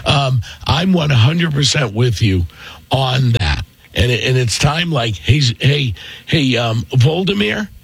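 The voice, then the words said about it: Hoarse, strained voice. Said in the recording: “My voice is shot from being sick for a week.”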